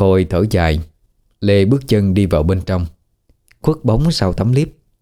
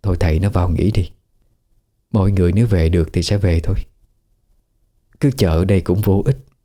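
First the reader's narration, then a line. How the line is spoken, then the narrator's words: Gentle, coaxing woman. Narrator (Vietnamese): Bà Khôi hiểu ý chồng, bèn nhẹ nhàng khuyên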